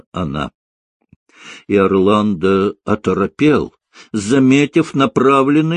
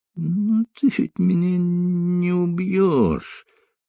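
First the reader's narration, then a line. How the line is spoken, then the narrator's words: Moaning. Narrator (Russian): простонал он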